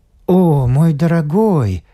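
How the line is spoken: Tender excited coo. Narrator (Russian): проворковал он ласково и взволнованно

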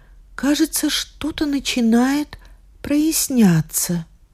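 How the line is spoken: Weak voice. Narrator (Russian): слабым голосом сказала Вероника

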